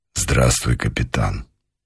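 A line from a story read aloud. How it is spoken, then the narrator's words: Quiet. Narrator (Russian): негромко сказал полковник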